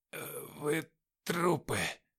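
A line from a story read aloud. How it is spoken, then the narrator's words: Whisper. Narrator (Russian): прошептал он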